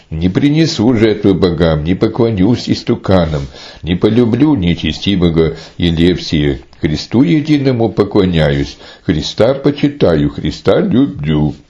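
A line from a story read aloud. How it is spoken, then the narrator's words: Courageous exclamation. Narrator (Russian): мужественная дева снова воскликнула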